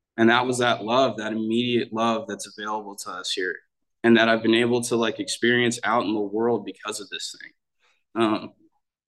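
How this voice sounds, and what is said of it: Emotional, choked-up voice. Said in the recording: “I'm getting choked up.”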